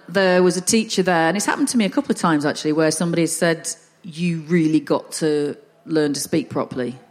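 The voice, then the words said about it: Northern English accent. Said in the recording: “because I'm Northern ... I don't want to change my accent. I'm quite happy with a Northern accent.”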